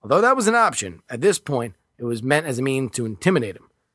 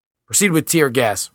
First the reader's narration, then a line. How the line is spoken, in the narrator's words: replied